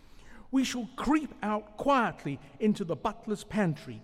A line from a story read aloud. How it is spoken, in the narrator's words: cried Mole